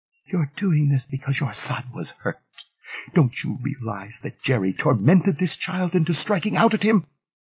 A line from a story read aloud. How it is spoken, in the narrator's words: She said in a weary whisper